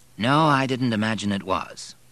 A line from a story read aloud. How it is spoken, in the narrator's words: replied dryly